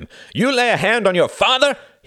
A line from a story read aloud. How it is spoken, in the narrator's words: he cried